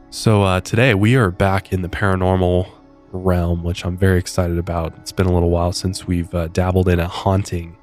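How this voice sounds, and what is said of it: Nasal, softer congested voice. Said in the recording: “sounds a little bit different today ... a little nasally ... A little nasally, I feel like a little softer than normal”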